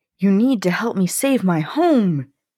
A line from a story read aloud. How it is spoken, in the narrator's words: he cried